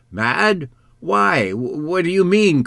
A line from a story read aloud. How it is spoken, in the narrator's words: cried Papa